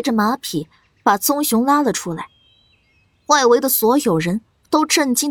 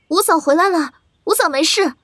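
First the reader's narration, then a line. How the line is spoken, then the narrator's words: Relieved shout. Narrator (Chinese): 见到苏黎跟繁星平安归来，莫禅雨高喊了一声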